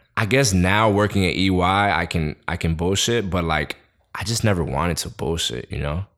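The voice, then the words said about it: New York Queens accent. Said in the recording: “I just had too much of a Queens accent”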